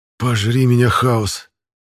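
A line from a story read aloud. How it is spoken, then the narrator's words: Breathed out. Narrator (Russian): выдохнул Пашка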